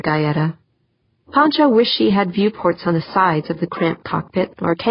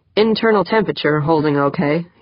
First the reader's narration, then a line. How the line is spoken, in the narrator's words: said